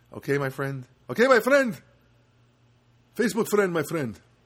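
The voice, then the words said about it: Put-on Armenian accent. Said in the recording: “my Armenian impression”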